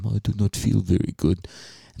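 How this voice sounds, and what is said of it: French-accented imitation of another person. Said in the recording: “He's French. That's my impression of him.”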